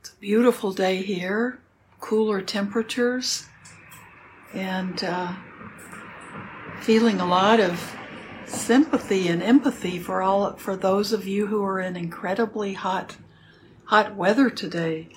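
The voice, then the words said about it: Slightly hoarse, froggy voice. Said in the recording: “My voice is a little froggy.”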